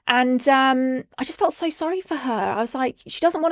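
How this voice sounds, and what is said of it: Usual voice. Nothing is said of it.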